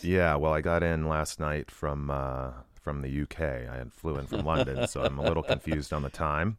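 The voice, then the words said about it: Deep, husky morning voice. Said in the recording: “You have your morning voice. ... You sound like you're about ready to cut like a jazz album ... I've got my radio voice. ... Kind of deep and sultry.”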